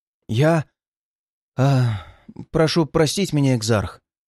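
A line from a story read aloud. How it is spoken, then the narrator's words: Hesitant bleating young man. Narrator (Russian): Неуверенно проблеял темноволосый юноша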